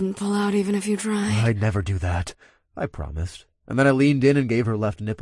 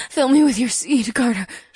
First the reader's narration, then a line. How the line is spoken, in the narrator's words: she gasped out as she dragged in a ragged breath